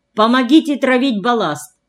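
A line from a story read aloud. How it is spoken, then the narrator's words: Loud. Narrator (Russian): громко сказала Марфенька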